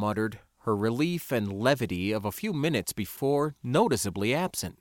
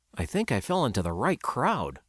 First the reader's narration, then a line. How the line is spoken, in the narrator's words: I muttered, feeling quite impressed